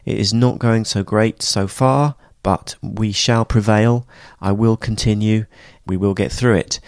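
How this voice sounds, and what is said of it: Voice strained by a cold. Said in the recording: “I've got a terrible cold. I'm sorry about the voice.”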